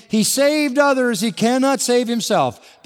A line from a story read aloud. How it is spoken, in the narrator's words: Were mocking him among themselves and saying